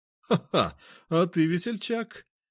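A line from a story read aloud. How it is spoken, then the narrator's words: Cheerful laughter. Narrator (Russian): он весело рассмеялся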